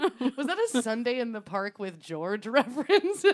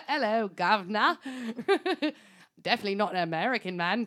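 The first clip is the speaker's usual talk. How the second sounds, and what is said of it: Bad put-on British accent. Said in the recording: “pretending to have a British accent ... His accent is as bad as mine”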